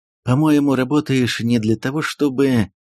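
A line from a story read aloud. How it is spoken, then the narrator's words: Indifferent tone masking irritation. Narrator (Russian): Томас безразличным тоном, с целью скрыть свое раздражение, сказал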